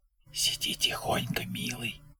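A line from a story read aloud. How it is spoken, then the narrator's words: Whisper. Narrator (Russian): по-прежнему шепотом ответила Джейнис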